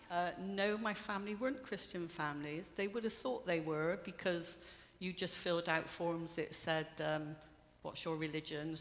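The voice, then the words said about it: Bristolian English accent. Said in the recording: “my Bristolian accent”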